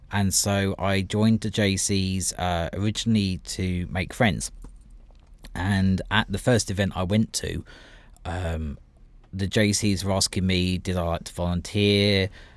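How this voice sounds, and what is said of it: British accent. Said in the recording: “Obviously, I come with an accent. ... from the UK”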